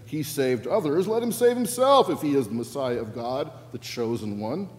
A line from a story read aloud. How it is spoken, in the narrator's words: the leaders scoffed at him, saying